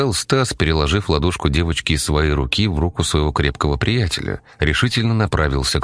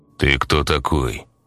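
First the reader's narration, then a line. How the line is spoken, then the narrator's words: Rude irritated question. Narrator (Russian): грубо спросил цыган, не выдержав Стасовой наглости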